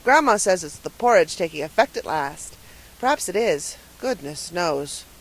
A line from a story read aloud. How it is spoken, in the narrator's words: Paul sighed deeply